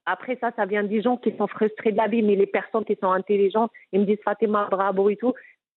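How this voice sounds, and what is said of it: Moroccan-accented French. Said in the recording (French): “t'as vu ton accent, on dirait Gad Dalmaleh ... je n'ai pas envie d'abandonner mon accent ... je suis marocaine”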